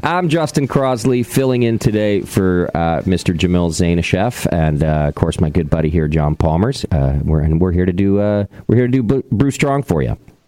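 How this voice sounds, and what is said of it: Strained, failing voice from sore throat. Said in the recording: “I don't know what happened to my throat. Overnight, it just started going on me.”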